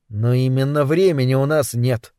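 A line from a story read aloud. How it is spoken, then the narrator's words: Tired reminder. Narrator (Russian): устало напомнил Кэл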